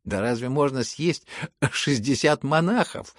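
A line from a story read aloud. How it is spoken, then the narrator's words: Laughing crowd. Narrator (Russian): смеялись кругом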